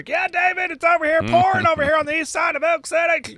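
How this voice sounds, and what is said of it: Storm chaser impression. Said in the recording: “best storm chaser and impression.”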